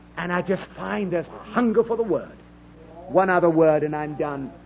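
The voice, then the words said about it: British accent. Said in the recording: “You've got a British accent.”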